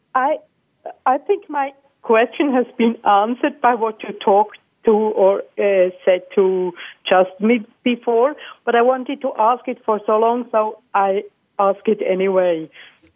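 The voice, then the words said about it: Swiss accent. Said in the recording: “You sound like you're Swiss. ... I love your accent.”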